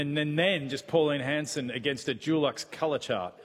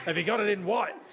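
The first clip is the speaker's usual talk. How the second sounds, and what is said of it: Imitates another person's voice. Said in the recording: “That's my Pauline Hanson impression, apparently. No effort on the voice.”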